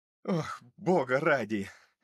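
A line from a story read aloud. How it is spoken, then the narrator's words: Sigh. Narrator (Russian): Вздохнул Томас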